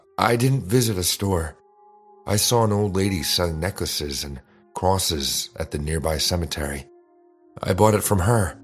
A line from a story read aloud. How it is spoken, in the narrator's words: Lena answered